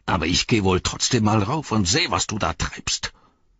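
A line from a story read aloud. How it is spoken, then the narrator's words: Growled. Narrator (German): knurrte Snager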